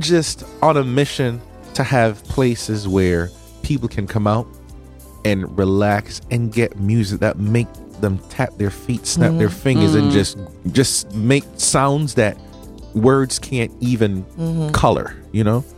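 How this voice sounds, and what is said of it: Slight Jamaican accent. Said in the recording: “My accent slipped out a little bit, right? Yeah, I'm from Jamaica.”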